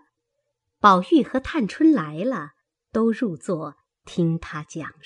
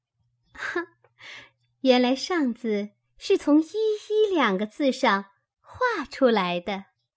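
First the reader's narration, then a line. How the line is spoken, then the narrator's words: Admiring, laughing. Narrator (Chinese): 香菱点头叹赏，笑道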